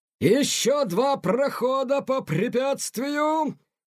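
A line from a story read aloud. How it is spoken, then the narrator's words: Shouted. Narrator (Russian): кричал Тихону полковник Грант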